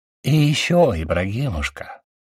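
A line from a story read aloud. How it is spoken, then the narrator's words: Sickly sweet voice. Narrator (Russian): снова заговорил Матонин еще более приторным голосом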